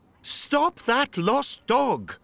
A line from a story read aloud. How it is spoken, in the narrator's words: Dad shouted